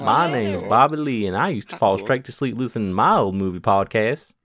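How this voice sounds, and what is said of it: Put-on southern accent. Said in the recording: “do like a southern accent”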